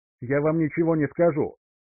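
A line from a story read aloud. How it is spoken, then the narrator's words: Shout. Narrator (Russian): выкрикнул Гарди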